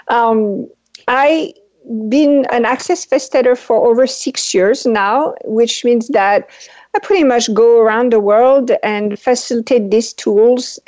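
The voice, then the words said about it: French accent. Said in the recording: “I am originally from France. That's why I have the weird accent.”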